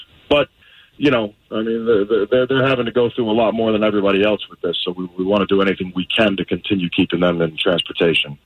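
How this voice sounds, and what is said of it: Fake New York accent. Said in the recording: “this fake New York accent.”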